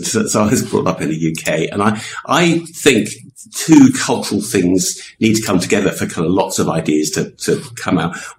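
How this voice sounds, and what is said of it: English accent. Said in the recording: “You probably tell I have an English accent”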